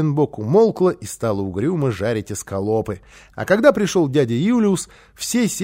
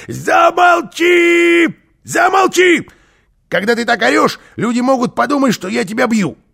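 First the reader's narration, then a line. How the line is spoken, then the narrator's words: Shouting. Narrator (Russian): Карлсон влетел к ней на кухню и закричал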